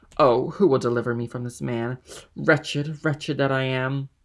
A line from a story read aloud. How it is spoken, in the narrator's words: he exclaimed, running furiously and tearing his hair